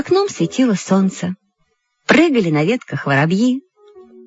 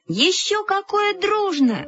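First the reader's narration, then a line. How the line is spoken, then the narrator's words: Exclaiming in unison. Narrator (Russian): воскликнули мы с Люськой в один голос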